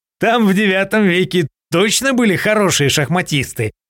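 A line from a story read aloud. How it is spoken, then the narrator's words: Snorting. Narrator (Russian): хмыкнул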